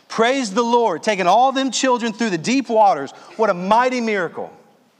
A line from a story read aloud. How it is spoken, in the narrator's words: Someone in the congregation shouted